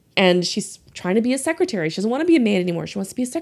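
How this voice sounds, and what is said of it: Usual voice. Nothing is said of it.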